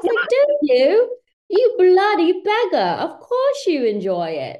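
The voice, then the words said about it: Put-on British accent. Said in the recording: “my British accent ... I was speaking in my British accent”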